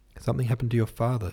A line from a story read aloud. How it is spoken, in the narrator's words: said Newman urgently